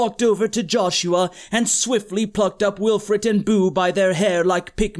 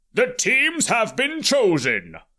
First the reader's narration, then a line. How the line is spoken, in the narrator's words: Olmec's voice boomed